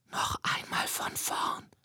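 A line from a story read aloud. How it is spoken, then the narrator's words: Whisper. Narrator (German): flüstert sie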